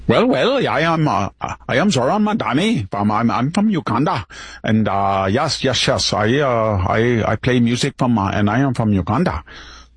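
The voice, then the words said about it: Mock put-on foreign accent. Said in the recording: “that accent ... he couldn't drop that accent in just 7 or 8 years”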